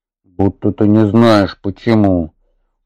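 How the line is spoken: Habitual snap. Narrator (Russian): Уже привычно огрызнулся Атхи

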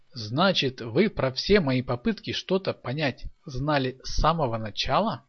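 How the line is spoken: Plain. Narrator (Russian): спросил Николай

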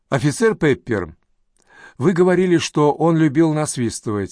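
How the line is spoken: Plain. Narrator (Russian): спросила Сакс

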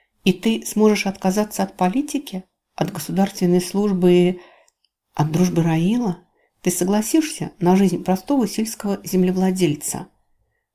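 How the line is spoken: Deep breath, then added. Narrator (Russian): Понадобилось поглубже вздохнуть воздух, чтобы добавить

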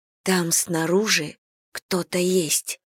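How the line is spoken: Whisper. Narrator (Russian): прошептала

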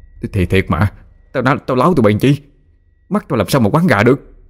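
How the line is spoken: Trembling voice. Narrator (Vietnamese): giọng nói run run

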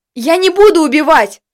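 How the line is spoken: Yelling. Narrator (Russian): заорал я

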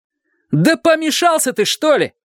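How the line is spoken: Shout. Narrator (Russian): крикнул он

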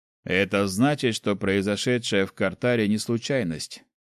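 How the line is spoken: Grim. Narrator (Russian): мрачно ответил Снег

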